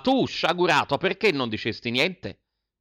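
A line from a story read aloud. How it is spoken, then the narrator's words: Mother shouts again. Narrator (Italian): ripigliava a gridare la mamma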